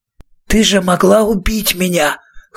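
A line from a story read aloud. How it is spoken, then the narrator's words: Hoarse voice. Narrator (Russian): хрипло сказал Роланд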